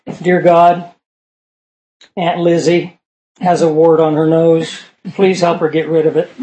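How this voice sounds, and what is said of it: Sarcastic, facetious mock prayer. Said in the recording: “I'm being sarcastic again. We're facetious.”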